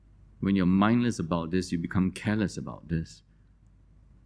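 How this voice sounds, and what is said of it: Usual voice. Nothing is said of it.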